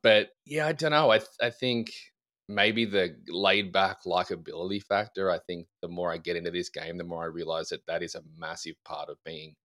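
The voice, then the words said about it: Australian accent. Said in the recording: “you do not have an American Southern accent here... the Australian accent”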